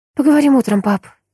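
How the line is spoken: Forced smile. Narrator (Russian): выдавила улыбку Майя

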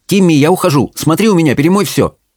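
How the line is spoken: Rapid chatter. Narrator (Russian): Белль тараторила

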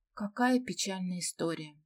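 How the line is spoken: Sigh. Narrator (Russian): вздохнула Ираида

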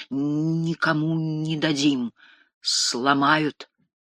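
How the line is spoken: Heavy stutter. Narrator (Russian): Младший говорил, заикаясь сильнее обычного

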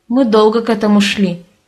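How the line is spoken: Snorting. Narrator (Russian): хмыкнул Саша

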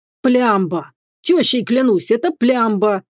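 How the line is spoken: Burly bearded man exclaiming. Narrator (Russian): воскликнул широкоплечий бородач

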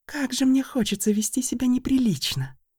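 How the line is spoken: Whisper in ear. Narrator (Russian): прошептала мне на ухо Ланила

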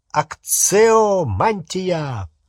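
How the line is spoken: Roared. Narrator (Russian): проревел пожиратель

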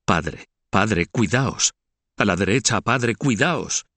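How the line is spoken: Small voice exclaiming. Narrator (Spanish): una vocecita que exclamaba

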